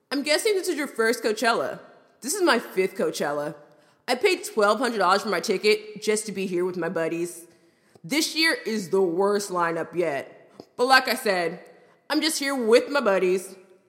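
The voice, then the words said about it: Frat bro voice. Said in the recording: “in a frat bro voice”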